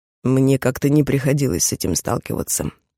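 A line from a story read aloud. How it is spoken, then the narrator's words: Snort. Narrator (Russian): фыркнул Кроу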